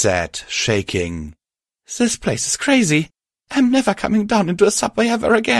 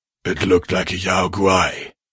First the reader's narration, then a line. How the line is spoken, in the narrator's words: Nixie said quietly